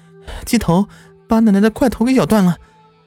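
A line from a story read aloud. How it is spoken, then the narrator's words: Stammering. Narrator (Chinese): 结结巴巴地说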